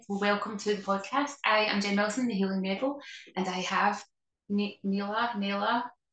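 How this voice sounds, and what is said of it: Strong Scottish accent. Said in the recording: “my very Scottish accent”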